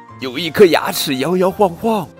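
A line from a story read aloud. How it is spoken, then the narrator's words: Shrieking. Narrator (Chinese): 女仆尖叫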